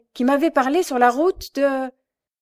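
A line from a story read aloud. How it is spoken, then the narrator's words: Exclaiming woman. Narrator (French): s'écria-t-elle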